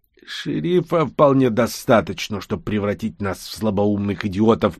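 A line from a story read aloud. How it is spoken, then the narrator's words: Through gritted teeth. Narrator (Russian): процедил Бигман сквозь зубы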